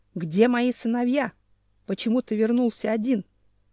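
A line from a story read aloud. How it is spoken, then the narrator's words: Growling. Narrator (Russian): зарычал Ненчич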